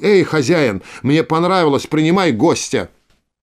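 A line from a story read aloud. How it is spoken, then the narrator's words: Shouted. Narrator (Russian): Крикнул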